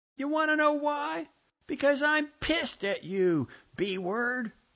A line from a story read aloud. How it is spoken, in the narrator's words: Bartonella me yelled